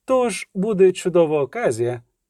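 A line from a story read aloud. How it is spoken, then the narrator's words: Elated shout. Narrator (Ukrainian): піднесеним голосом крикнула Киримець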